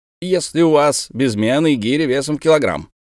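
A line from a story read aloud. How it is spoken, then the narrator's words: Plain. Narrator (Russian): спросил он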